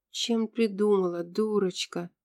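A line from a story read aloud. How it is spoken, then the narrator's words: Shocked whisper. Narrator (Russian): шокированно прошептала Джин-Джин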